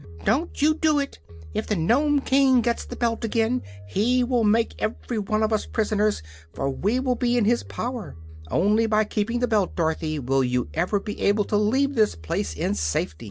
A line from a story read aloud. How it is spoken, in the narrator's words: Billina cried out